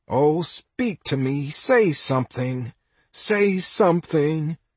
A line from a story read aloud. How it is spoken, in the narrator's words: Mickey sobs